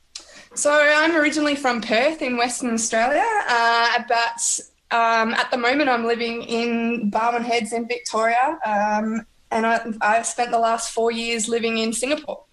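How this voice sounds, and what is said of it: Australian accent. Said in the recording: “that's an Aussie accent that I hear”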